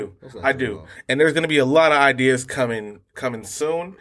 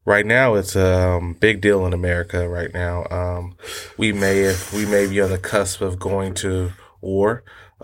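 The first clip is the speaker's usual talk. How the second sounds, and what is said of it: Mock serious, solemn tone. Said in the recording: “Let me just get my serious voice on.”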